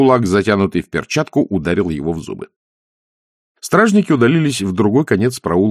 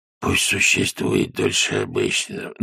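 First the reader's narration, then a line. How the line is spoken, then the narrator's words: Hoarse wheeze. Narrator (Russian): прохрипело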